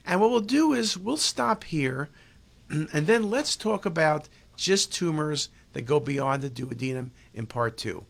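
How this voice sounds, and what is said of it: Tired, strained voice giving out. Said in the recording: “My voice is giving out. I need some vitamin water.”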